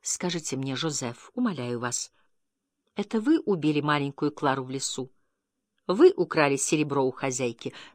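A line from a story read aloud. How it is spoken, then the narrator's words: Tender, deeply agitated question. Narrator (Russian): нежно, ласково, с невыразимым волнением спросила у него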